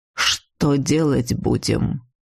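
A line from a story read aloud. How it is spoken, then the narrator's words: Calm question. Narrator (Russian): спокойно спросил некогда всем миром недобитый упырь Сибель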